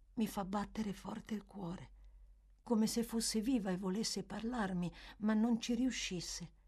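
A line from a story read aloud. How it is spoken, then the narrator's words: Child adding in low voice. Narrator (Italian): soggiunse il bambino a voce bassa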